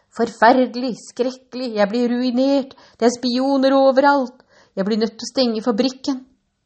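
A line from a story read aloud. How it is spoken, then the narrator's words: Despairing shout. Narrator (Norwegian): Willy Wonka fortvilet ropte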